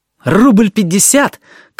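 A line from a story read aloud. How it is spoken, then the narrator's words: Shout. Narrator (Russian): крикнул Алёшка Смирняков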